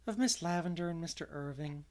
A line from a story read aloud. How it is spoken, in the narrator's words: answered Anne dreamily